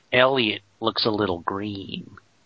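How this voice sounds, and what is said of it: Bad Jack Nicholson Joker impression. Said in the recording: “it's obviously doing Jack Nicholson as the Joker ... It's a worse actor doing Jack Nicholson.”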